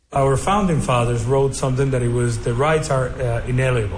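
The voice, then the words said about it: Kentucky accent. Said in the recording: “I apologize for the Kentucky accent here”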